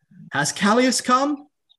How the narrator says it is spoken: Talion says excitedly

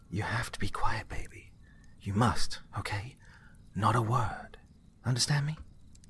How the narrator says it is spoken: She whispered to him

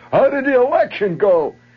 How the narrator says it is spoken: Hollering out at this group of people

